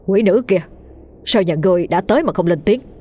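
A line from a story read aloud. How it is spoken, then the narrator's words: Stern voice. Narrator (Vietnamese): thầy Hưng nghiêm giọng nói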